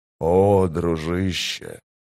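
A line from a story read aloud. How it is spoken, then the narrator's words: Whisper. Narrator (Russian): прошептал Гитол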